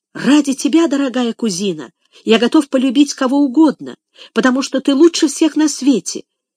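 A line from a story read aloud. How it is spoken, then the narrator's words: Flustered exclamation. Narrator (Russian): воскликнул Энрик и весь вспыхнул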